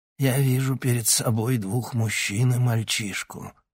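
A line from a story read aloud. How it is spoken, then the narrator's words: Hoarse old man. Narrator (Russian): хрипло произнес старик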